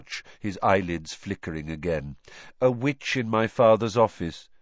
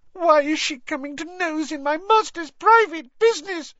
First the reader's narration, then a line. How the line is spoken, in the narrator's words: sobbed Winky